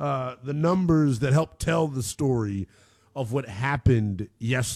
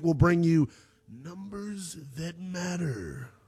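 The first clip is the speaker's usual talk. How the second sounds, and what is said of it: Booming announcer-style big voice. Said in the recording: “That was my big voice guy impersonation.”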